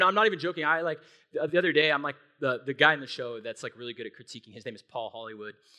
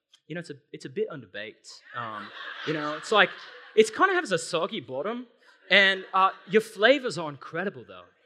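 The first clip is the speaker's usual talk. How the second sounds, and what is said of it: Attempted British accent, sounds Australian. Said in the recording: “I'm trying to sound like a Brit, but I'm actually sounding Australian.”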